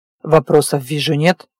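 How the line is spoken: With a snort. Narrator (Russian): хмыкнул Диего

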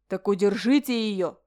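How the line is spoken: Roaring. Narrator (Russian): взревел Ален

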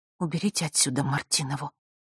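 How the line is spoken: Through clenched teeth. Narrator (Russian): процедила она сквозь зубы

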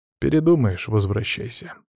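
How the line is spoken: Calm. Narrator (Russian): спокойно сказал брат

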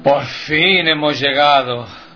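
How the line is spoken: Satisfied sigh, hunchback. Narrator (Spanish): el chepudo, lanzando un suspiro de satisfacción, exclama

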